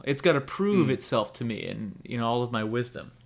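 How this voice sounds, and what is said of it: Sarcastic tone. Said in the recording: “I'm being sarcastic there”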